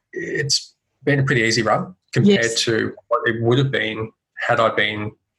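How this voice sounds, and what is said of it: Australian accent. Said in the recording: “I speak with the Australian accent”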